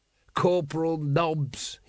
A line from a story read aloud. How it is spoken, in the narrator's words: rasped